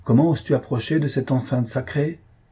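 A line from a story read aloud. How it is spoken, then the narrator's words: Angry. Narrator (French): poursuivit le brahmane d'un ton de colère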